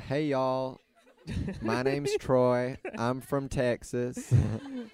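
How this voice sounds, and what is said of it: Put-on Texan accent. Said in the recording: “Can you do a Texan accent ... That's pretty good. It's pretty good for a first time.”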